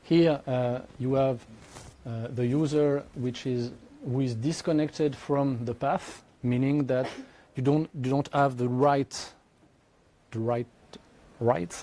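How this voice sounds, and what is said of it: Heavily accented English. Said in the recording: “my accent is deplorable”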